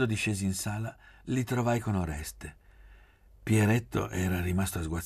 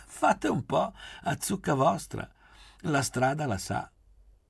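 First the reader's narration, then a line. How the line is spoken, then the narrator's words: Laughing. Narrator (Italian): ridendo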